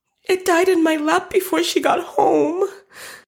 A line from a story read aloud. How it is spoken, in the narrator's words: cried Beth with a sob